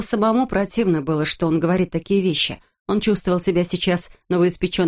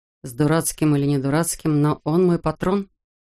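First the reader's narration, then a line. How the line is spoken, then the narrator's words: Grumbled mutter. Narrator (Russian): буркнул Жиль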